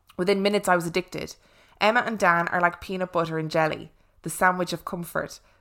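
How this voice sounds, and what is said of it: Rich Irish accent. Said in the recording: “whose Irish accent is rich and lovely”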